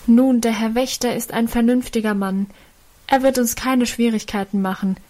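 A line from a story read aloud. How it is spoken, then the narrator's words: Call. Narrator (German): rief einer von ihnen dem Vater entgegen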